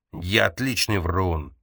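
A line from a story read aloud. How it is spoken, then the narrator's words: Snarling growl. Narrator (Russian): прорычал он, оскалив зубы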